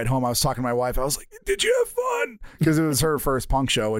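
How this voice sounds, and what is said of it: Scratchy, hoarse worn-out voice. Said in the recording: “I blew out my voice for doing the song twice ... My voice is scratchy ... My voice is just shot.”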